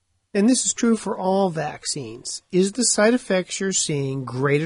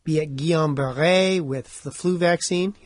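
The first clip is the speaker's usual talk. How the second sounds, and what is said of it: Put-on French accent. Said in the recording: “you like my French accent”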